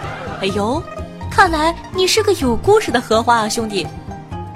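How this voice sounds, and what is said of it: Usual voice. Nothing is said of it.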